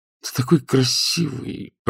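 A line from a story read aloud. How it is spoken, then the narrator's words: Cooing. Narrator (Russian): проворковал Матео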